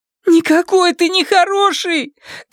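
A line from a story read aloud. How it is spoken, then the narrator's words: Shouted after someone. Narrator (Russian): крикнула она ему вслед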